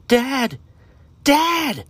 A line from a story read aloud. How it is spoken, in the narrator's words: Aiden screamed